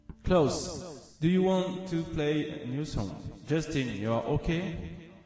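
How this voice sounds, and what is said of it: English with put-on Auvergne French accent. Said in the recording (French): “mon super accent auvergnat anglais”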